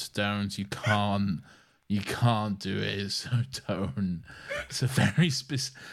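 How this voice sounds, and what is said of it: Usual voice. Nothing is said of it.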